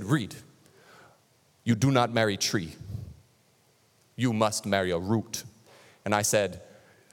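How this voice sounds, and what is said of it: Put-on dramatic Nigerian accent. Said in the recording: “I gotta give you the accent, because whenever anybody from Africa, like Nigeria, whatever, if you've ever heard their accent, it's way cooler than American accents ... It just sounds way more profound ... They're dramatic in their accent.”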